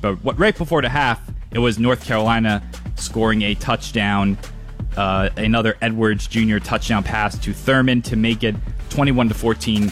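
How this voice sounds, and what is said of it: New York, New Jersey accent. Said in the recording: “I heard your New York accent kind of come out in that update. I heard the New York, New Jersey accent ... you're talking about the touchdown there. Like, it was very New York.”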